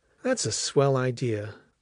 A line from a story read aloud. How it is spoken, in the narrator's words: Alice answered warmly